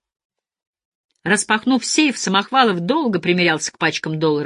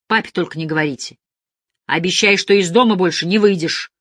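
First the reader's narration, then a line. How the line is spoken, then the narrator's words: Stern. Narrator (Russian): строго погрозил пальцем Сашка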